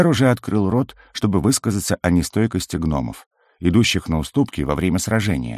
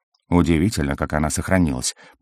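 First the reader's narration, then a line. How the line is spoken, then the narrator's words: Mutter. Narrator (Russian): пробормотал Сурок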